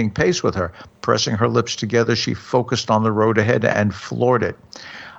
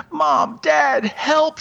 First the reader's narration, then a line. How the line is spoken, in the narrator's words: screamed